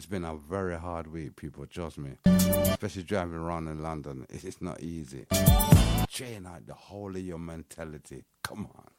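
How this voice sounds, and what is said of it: Croaky, hoarse voice. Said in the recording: “Hear my voice, I sound croaky, innit?”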